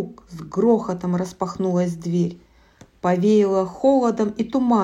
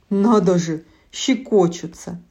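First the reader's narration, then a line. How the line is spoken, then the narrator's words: Laughing. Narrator (Russian): засмеялся он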